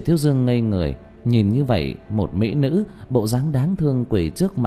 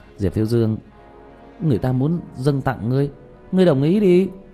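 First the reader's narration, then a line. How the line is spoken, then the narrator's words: Laughing. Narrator (Vietnamese): Mã Thừa cũng bật cười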